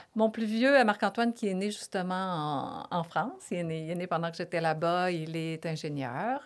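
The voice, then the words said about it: Québécois French accent. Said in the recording (French): “mon accent québécois est... bien présent. Il est bien présent.”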